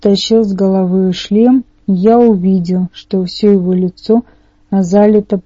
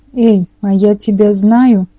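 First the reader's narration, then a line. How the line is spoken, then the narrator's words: Exclaiming. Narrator (Russian): воскликнула Аннабет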